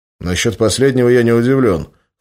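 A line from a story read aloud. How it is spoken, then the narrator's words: Snorting. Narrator (Russian): хмыкнул Иван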